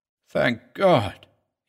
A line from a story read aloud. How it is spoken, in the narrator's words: he muttered